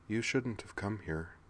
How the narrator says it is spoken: she said softly

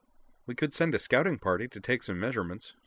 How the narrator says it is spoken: said Azalin

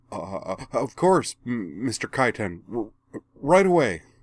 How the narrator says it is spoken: the waiter stammered

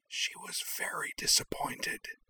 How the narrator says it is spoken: she stage-whispered Mock confidentially

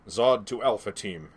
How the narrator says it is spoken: he barked into his hand link

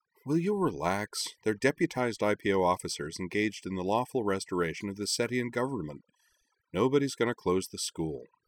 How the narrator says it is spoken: With a sigh, Kaname told her

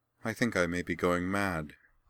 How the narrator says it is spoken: said matter-of-factly

